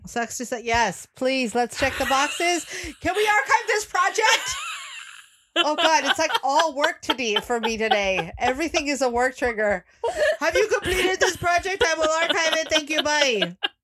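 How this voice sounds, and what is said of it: Yelling, loud delivery. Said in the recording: “I keep yelling today”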